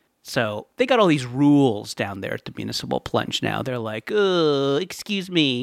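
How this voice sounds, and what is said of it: Usual voice. Nothing is said of it.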